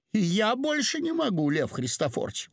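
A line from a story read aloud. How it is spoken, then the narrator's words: Exclamation. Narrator (Russian): воскликнула она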